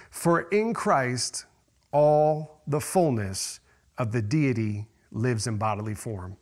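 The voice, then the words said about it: Slow, deliberate reading. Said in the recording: “I'm going to read it slowly.”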